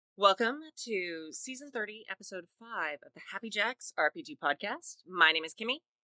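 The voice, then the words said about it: Polished radio announcer voice. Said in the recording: “You were doing great radio voice”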